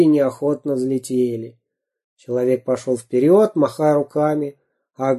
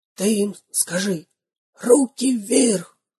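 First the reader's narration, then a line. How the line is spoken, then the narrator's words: Whispering robber. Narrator (Russian): зашептал первый разбойник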